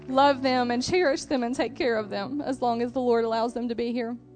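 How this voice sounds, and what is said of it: Emotional, choked-up voice. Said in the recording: “I get emotional”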